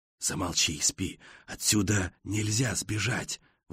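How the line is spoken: Whispered objection. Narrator (Russian): возражает другой, тоже шепотом

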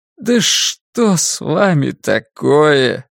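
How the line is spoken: Weak voice. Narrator (Russian): слабым голосом проговорил Джим

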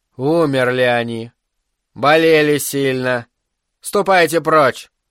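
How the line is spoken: Stern. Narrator (Russian): дарволия, строго произнесла

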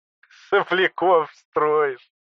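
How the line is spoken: Giggling. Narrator (Russian): хихикнул папа

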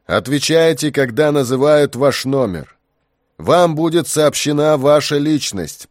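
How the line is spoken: Booming loudspeakers. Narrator (Russian): прогремели динамики

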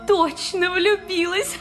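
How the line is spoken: Laughing. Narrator (Russian): Рассмеялась Тамара

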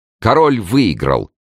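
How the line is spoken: Joyful repetition. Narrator (Russian): радостно повторила молодая королева

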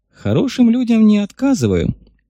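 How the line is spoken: Cheerful, grinning. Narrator (Russian): Климова весело оскалилась

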